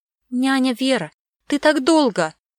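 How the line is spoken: Exclaimed. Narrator (Russian): воскликнула Мира

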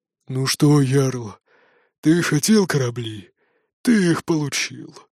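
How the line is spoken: Grumbling. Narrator (Russian): проворчал Броди

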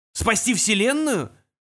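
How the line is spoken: Contemptuous, through teeth. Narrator (Russian): презрительно процедил Аграджак

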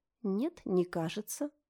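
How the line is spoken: Calm. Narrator (Russian): спокойно ответила Мелани

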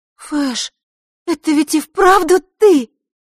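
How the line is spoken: Surprised, joyful question. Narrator (Russian): удивленно-радостно переспросила Василиса

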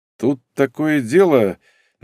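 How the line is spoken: Uncertain. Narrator (Russian): начал он, как мне показалось, неуверенно

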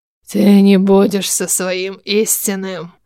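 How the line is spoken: Hoarse, unrecognizable voice. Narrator (Russian): хриплым, уже неузнаваемым голосом сказать

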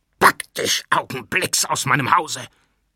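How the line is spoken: Shouting. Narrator (German): schrie Jakow

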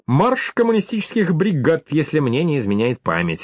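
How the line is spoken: Plain. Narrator (Russian): ответил Федор

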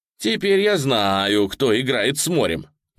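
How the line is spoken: Loud question. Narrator (Russian): И он громко спросил

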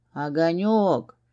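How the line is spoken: Moaning. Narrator (Russian): простонал Костас

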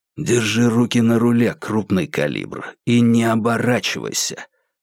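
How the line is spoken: Whisper. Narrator (Russian): прошептал Джо Курц

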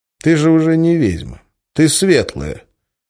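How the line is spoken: Sighing. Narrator (Russian): вздохнул и сказал

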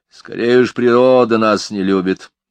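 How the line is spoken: Grumbled. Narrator (Russian): проворчал Мелифару

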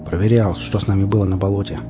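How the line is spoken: Grumbling. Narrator (Russian): буркнул я

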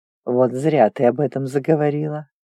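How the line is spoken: Low purring voice. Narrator (Russian): низким мурлычащим голосом ответил тигр

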